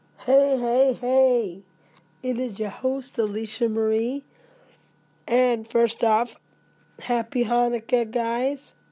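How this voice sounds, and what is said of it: Hoarse, raspy voice. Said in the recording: “Pay no attention to my voice. Do I sound sexy? ... It's just a little case of laryngitis.”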